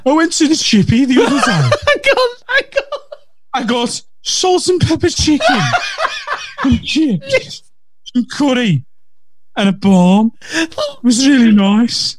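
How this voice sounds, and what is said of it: Bad slow Birmingham accent. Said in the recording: “they do speak slowly in Birmingham ... a shit Birmingham accent and talks slowly”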